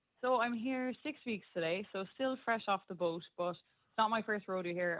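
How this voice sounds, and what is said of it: Irish accent. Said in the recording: “I'm expecting to hear some American on the phone, but no, I'm hearing ... from Ireland... from County Clare, that's it. I'll never lose the accent”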